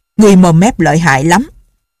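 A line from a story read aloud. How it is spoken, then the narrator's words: Harsh shout. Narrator (Vietnamese): Một tên đệ tử Tung Sơn quát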